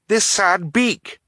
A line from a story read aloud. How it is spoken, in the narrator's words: Violet exclaimed